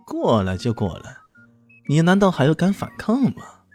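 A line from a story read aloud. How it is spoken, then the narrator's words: Sneering. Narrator (Chinese): 猥琐佬冷笑道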